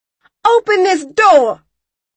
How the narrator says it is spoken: I screamed

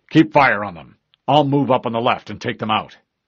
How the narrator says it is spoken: he barked

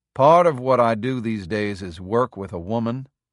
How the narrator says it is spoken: said softly

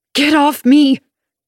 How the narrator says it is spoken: I shout as loudly as I can, my voice shrill with fear, my mouth distorted by his grip

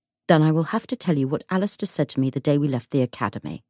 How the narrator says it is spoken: said Matthew

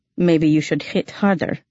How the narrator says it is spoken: he replied dryly

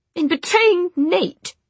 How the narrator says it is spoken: Jessamine snapped

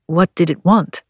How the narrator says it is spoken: he asked

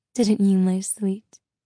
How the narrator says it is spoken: Maleficent purred

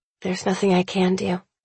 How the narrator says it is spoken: I mutter

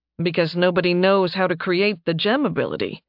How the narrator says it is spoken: Nathan said dryly

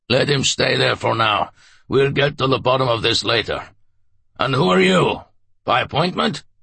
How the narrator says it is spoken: he barked

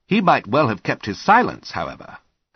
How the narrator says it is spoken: Holmes mused

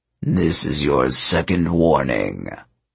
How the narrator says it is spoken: a voice rumbled, so powerful it shook the earth

